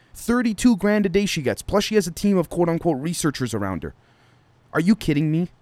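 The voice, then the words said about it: Angry, exasperated ranting tone. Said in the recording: “I'm sorry guys if I sound angry”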